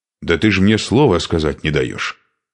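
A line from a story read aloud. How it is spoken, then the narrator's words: Angry reply. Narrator (Russian): сердито ответил Шуйка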